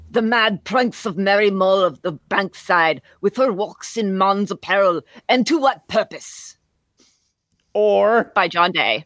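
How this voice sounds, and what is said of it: Mock Middle English accent. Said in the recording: “I'm, kind of enjoying my like Middle English accent here.”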